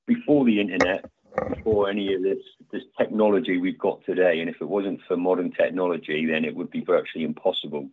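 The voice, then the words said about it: English accent, not American. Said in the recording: “as you can probably hear by my accent, I'm not American ... I live in a small town called Kingstanton, which is in Devon in England”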